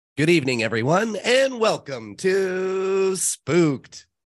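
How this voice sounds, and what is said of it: Sick voice, can't reach high notes. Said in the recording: “my voice is messed up ... I can't hit my voice. I'm not getting those highs.”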